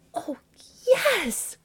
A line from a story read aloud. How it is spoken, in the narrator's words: cried she